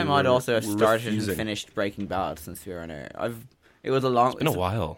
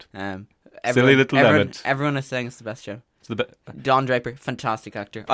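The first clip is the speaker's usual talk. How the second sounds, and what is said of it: Donald Trump impression. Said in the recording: “doing a Trump impression”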